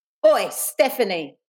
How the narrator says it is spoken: Dawn yelled

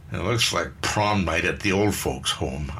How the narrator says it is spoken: Eileen grumbled

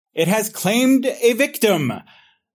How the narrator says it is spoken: the professor shouts

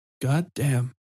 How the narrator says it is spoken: Junichiro whispered to himself

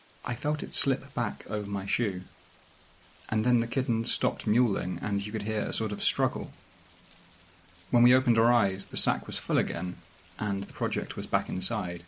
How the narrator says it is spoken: The lead designer says, very quietly

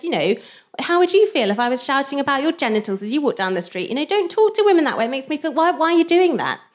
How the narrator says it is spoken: she shouted back and said

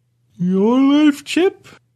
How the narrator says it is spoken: I asked, as I yawned

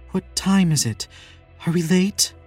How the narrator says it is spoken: says between gasps

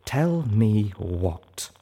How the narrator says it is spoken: Velvet asked me slowly

